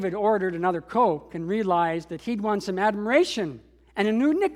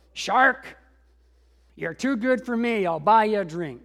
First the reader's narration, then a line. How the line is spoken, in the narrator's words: the big man snarled